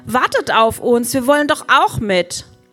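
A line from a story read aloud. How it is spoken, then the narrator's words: Indignant call. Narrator (German): ruft Ben empört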